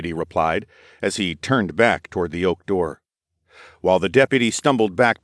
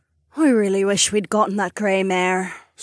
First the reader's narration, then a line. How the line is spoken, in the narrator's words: Sorsha sighed